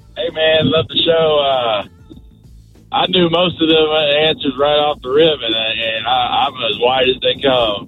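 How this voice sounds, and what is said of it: Mild Southern US accent. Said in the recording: “I could tell a little bit ... accent. He's clearly a little more Southern.”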